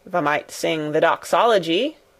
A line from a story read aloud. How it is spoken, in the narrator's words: suggested in his driest grunt